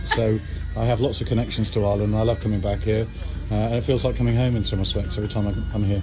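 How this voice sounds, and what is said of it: English accent. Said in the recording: “you're listening to me with an English accent here”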